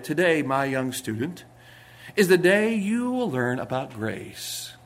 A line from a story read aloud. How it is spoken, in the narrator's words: he said quietly